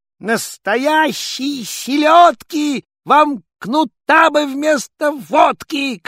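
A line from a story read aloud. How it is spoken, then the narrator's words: Angry shout. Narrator (Russian): крикнул ёрш со всех сердцов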